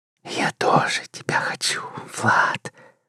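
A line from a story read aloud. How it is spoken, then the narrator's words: Passionate breathy whisper. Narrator (Russian): жарко прошептала секретарша, тяжело дыша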